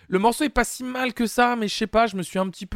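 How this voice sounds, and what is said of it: Voice fading, going hoarse. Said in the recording (French): “Excusez-moi, ma voix est en train de partir. un petit peu”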